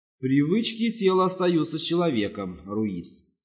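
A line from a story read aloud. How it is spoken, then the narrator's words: Plain. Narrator (Russian): сказал Самнир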